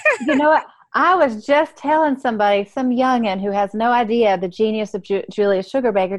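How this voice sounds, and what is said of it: Southern US accent. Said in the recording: “I just love your Southern accent. ... you make it sound like Julia Sugarbaker.”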